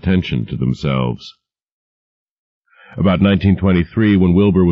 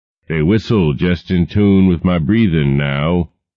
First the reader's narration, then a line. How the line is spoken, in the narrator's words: he said